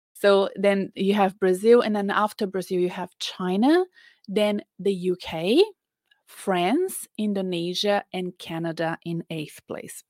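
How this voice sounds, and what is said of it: Brazilian-accented English. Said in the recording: “I'm Brazilian. You can tell I have an accent. I can't hide it.”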